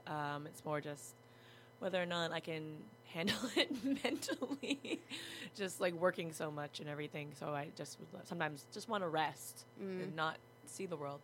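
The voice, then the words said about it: Hoarse, low, lost voice. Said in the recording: “I've lost my voice. I sound very sexy. ... I was talking very low.”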